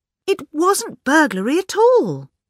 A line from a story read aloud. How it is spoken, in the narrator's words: cried Miss Bunner